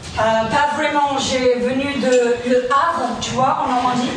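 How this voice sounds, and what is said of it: Heavy English accent in French. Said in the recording (French): “débarque avec un gros accent anglais”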